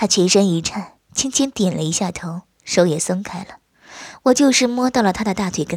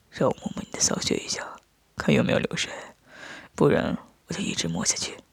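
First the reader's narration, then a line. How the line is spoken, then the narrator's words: Soft whisper. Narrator (Chinese): 我见状凑到他耳边轻声说道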